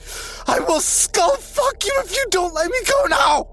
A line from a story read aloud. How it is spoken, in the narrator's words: He shouted